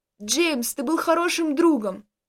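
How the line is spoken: Choking desperate shout. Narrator (Russian): Захлебываясь водой, кричал из последних сил Костя

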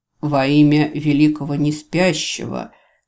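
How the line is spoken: Solemn proclamation. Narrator (Russian): торжественно провозгласил мужчина

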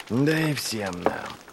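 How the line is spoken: Whispered. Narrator (Russian): прошептал он ей вслед

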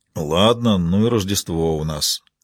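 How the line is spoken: Grumbling. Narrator (Russian): проворчал Фрэнки

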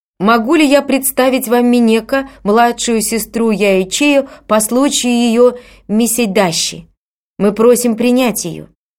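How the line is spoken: Loud announcement. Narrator (Russian): одевальщик громким голосом объявил

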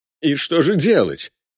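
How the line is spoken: Excited exclamation. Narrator (Russian): воскликнул Аршанский, словно женщина, получившая положительный тест на беременность

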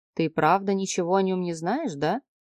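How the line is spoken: Mocking question. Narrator (Russian): спросил он насмешливо

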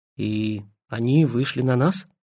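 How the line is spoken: Gruff mutter. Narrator (Russian): буркнул Жарков

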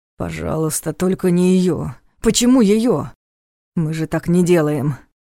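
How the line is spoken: Almost moaning. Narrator (Russian): Почти простонал Повелос

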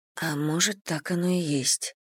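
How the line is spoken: Muttering. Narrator (Russian): пробормотала Селия

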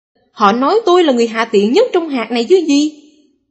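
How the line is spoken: Sudden shout. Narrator (Vietnamese): Khách hàng của tôi bỗng hét lên

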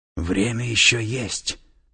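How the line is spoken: Whispered, tattooed man. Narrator (Russian): прошептал татуированный

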